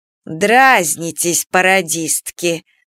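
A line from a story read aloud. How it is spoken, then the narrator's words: Stern, no longer sad. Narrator (Russian): спрашивала Бама уже строго, печали, грусти и обиды как не бывало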